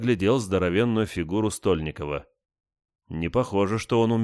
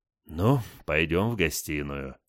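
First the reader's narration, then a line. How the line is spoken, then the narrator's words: Heavy sigh. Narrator (Russian): тяжело вздохнул я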